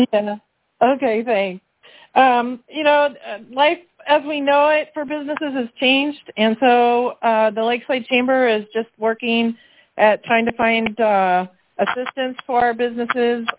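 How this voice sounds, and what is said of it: Slightly raspy voice. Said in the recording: “my voice is a little raspy ... I did my fair share of cheering this morning”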